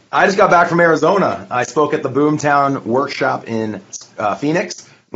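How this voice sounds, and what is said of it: Raspy, worn-out voice. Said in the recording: “I spoke for two full days, and so that's why I'm bringing the raspy version today”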